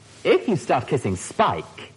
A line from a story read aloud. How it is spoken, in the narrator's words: Amarja said, her voice sparkling with amusement